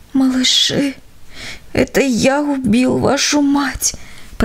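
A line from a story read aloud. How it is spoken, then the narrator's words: Whispered. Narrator (Russian): прошептал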